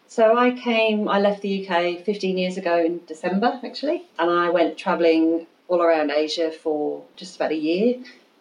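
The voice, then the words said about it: British English accent. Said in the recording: “your accent is not from around here”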